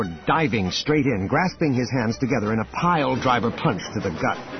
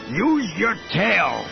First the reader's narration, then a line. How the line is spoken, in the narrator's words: he bellowed to her in Salonian